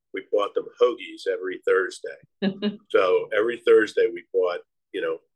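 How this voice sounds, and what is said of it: Philadelphia accent. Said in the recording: “my Philly accent is going to come out”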